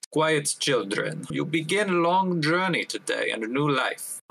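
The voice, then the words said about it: Soothing character voice, unfamiliar accent. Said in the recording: “an accent that you don't recognize from Marisport area, and his voice not unkind, an attempt to be soothing”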